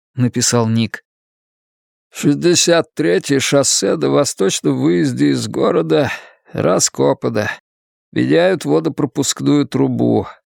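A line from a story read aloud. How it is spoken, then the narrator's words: Plain. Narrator (Russian): ответил Соумс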